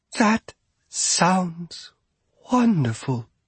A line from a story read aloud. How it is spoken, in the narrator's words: she breathed